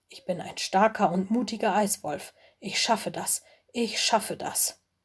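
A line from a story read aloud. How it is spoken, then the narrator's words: Muttered. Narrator (German): murmelte er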